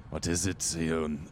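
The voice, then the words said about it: Character voice with an accent. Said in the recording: “Oh, that's the wrong accent.”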